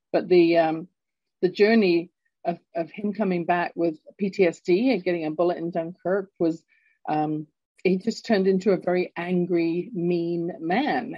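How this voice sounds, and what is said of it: London English accent. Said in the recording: “I was growing up in London, England. You can tell from my accent, I'm not born in Canada”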